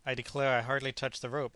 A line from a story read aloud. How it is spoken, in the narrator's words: answered Hercules